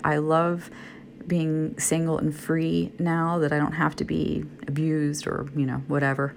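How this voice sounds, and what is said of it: Groggy voice. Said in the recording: “I'm laying in bed tonight. That's why I'm sorry my voice is groggy.”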